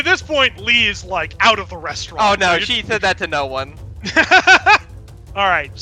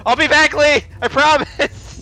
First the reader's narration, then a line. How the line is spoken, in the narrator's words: she yells